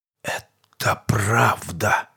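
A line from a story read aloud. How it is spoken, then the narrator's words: Forced whisper. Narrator (Russian): выдавил маг шепотом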